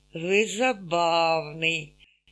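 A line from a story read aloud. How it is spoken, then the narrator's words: Muttering through teeth. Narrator (Russian): Сквозь зубы пробормотала Раиса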